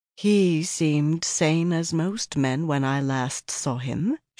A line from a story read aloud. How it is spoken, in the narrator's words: she said softly, with just a slight emphasis